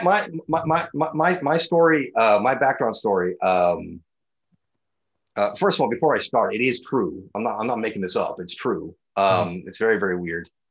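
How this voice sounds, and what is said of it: American-sounding accent. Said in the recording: “you have an American accent”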